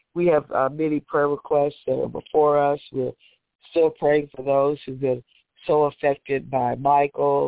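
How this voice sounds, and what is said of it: Strained, sick-sounding voice. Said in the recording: “excuse my voice. I'm kind of battling here. I've been doing Mimota Plus and cough drops”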